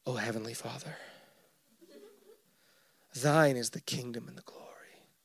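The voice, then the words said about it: Mock solemn spiritual prayer voice. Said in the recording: “maybe you didn't hear me and I wasn't speaking in a spiritual enough voice”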